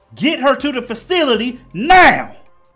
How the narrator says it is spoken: He screams, infuriated

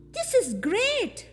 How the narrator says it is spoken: Miney exclaimed

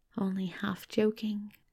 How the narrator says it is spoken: he murmured

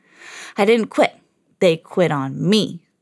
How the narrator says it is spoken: Doc said bitterly

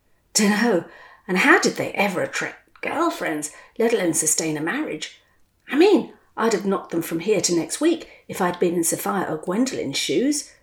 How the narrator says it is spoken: scoffed Sir Hilary

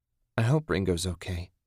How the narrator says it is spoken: Susan said quietly

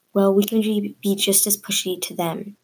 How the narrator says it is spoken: I whispered back

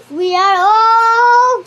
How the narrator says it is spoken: cried the monkey

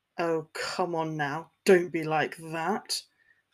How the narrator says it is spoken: McLagan chuckled

